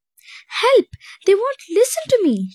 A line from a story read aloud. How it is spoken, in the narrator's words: she cried in frustration